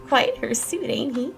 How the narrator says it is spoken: giggled Mary Catherine

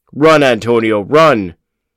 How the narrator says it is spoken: Mad Dog cried

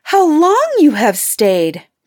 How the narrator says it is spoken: cried she, gaping, rubbing her eyes, and stretching herself as if she had been just waked up out of her sleep

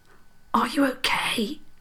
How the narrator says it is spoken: Princess Isobel whispered

